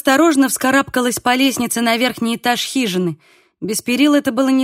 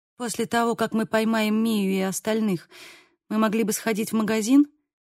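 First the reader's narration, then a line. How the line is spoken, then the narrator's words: Quiet suggestion. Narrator (Russian): тихо предложила я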